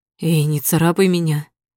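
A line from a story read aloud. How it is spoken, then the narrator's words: Warning hoarse rasp. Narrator (Russian): предупреждающе хрипит Андреев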